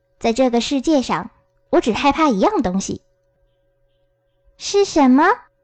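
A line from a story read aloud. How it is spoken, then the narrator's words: Plain question. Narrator (Chinese): 多罗西问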